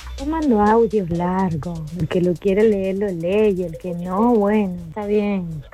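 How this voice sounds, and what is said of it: Very distinctive regional accent. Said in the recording (Spanish): “Me gustó la tonada que tenía, ¿viste? Una tonada muy particular.”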